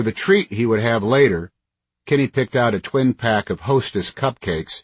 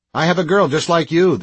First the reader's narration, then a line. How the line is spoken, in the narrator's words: the grocer said